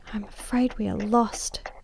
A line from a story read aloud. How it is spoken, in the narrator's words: she whispered in my ear